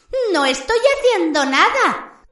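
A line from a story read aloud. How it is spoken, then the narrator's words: Laughing reply. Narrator (Spanish): contestó Pips entre risas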